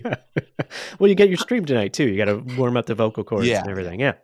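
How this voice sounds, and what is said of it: Soothing, low cold-affected radio voice. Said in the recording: “You have such a soothing voice ... I'm getting over a cold ... that probably adds to the sexy radio voice”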